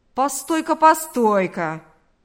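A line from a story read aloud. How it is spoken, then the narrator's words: Genuinely indignant exclamation. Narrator (Russian): воскликнул Карп в неподдельном возмущении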